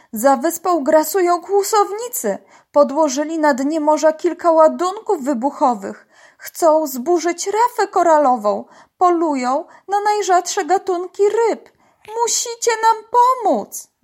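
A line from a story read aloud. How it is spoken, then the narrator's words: Dolphin calling out. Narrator (Polish): zawołał delfin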